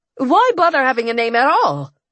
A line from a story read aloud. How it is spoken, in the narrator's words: I said irritably